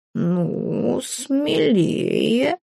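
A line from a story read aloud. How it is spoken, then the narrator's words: Purring. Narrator (Russian): мурлыкнул Филя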